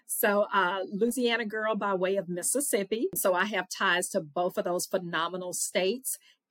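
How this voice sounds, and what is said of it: Southern US accent. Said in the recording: “I am a good old Southern girl... I'm sure you can hear my accent.”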